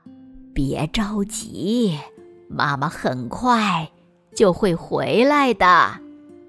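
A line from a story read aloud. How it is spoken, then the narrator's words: Grandmother, gentle voice. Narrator (Chinese): 奶奶温柔的说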